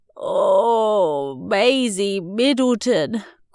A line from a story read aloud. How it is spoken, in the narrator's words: groaned Mum and Dad